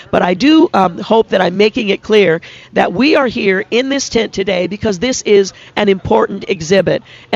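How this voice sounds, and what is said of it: Scratchy, hoarse voice. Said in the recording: “apologize for my voice ... I've been struggling for some time with having a bit of a scratchy voice”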